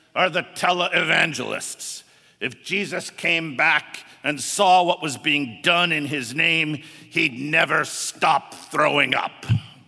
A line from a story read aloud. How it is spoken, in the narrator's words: sneers